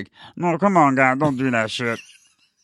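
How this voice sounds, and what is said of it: Imitates another person's voice. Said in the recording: “worst Flea impression.”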